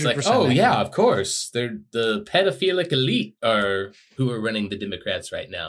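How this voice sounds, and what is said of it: Imitates another person's voice. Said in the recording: “your John DeLancey impression, flawless.”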